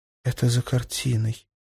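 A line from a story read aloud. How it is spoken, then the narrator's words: Whispered. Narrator (Russian): прошептала Джулия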